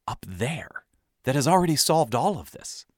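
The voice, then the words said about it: Whispering. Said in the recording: “I changed my voice to a whisper here”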